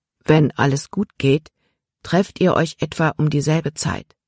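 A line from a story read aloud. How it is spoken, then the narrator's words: Added softly. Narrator (German): fügte er leise hinzu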